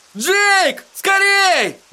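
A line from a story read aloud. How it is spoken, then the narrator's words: Yelled into keyhole. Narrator (Russian): завопил он замочную скважину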